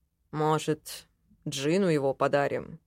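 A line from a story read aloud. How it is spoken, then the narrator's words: Thoughtful mutter. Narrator (Russian): задумчиво пробормотал Ленар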